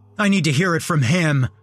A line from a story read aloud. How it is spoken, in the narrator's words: he cried out